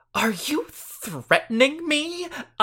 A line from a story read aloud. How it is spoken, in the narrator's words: I gasped